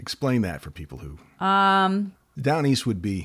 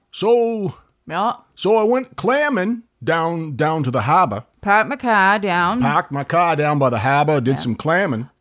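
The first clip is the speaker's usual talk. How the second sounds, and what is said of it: Put-on Down East Maine accent. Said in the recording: “My dad had a Down East accent, and it was rough. ... Down East accent.”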